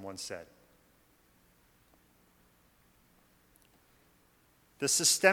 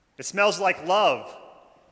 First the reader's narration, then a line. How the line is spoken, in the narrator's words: shouted